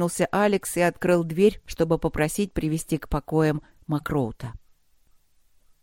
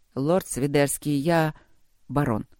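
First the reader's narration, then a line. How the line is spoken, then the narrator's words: Calm interruption. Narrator (Russian): спокойно перебил его Алекс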